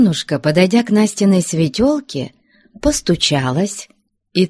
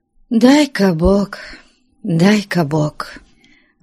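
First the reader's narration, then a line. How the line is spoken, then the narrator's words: Sigh. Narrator (Russian): вздохнула Аксинья Захаровна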